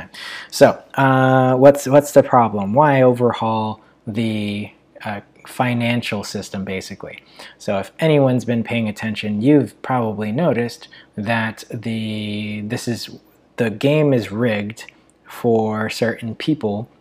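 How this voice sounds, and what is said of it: Voice sounds low and worn. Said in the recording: “my voice sounds a little low, as again, I've been talking for quite a while”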